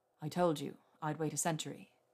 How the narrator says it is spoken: he said

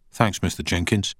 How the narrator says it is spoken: Danny said quietly

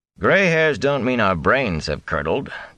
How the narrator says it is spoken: Tam said dryly

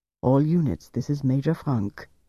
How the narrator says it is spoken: he said softly

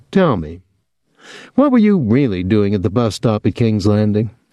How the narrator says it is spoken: She chuckled

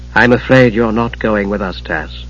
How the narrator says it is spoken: Tannis said gently

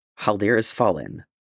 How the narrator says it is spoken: Thorin said curtly

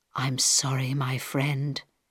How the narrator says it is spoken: he whispered to Harold

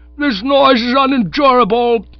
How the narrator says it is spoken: yelled Sir Roderick

